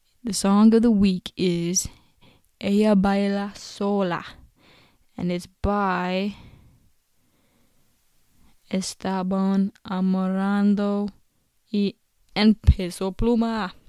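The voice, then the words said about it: American accent on Spanish words. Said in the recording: “I have such like an American accent when I'm speaking Spanish”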